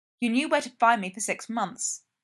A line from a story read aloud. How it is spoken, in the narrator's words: Charles snaps